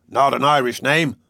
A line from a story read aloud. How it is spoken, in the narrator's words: the captain snapped sharply